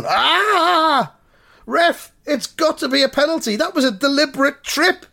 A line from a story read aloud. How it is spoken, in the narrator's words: shouts Noel Baxter